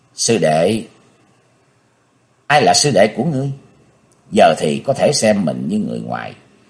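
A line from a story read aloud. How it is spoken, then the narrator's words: Cold question. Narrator (Vietnamese): Hắn lạnh lùng hỏi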